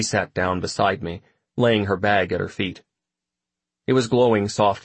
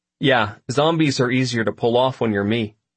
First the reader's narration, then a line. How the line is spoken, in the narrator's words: I said